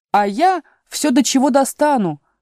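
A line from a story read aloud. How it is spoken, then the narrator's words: Child's exclamation. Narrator (Russian): воскликнул двойнюшечка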